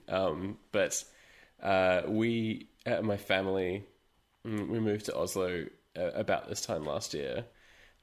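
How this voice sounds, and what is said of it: Australian accent. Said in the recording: “as you can hear from my voice, I'm Australian”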